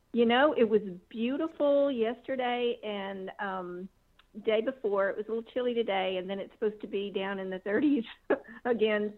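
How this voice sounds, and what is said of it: Slight regional accent. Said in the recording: “You have a little bit of an accent.”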